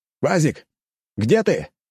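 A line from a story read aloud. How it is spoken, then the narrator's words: Loud shout. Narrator (Russian): громко закричал я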